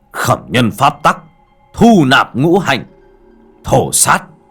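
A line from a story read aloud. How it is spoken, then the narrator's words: Loud roar. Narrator (Vietnamese): miệng gầm lớn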